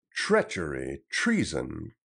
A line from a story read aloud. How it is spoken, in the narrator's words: cried Robin